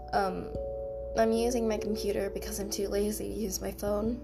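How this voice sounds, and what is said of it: Sick-sounding voice. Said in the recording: “As you can maybe hear in my voice, I'm sick”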